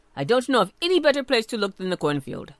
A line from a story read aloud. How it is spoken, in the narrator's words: Jasper Jay told him quickly